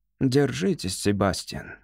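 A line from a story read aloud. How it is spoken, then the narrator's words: Soft, in a foreign language. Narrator (Russian): мягко сказал он по-кератийски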